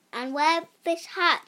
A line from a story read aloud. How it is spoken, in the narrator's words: said